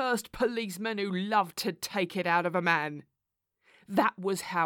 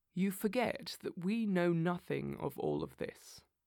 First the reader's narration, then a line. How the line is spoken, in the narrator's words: said Holmes quietly